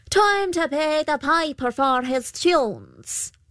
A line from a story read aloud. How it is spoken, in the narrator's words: The Puka called out